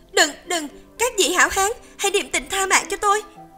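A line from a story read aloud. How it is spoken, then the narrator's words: Frightened cry. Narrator (Vietnamese): Tiểu Yến Tử sợ hãi kêu lên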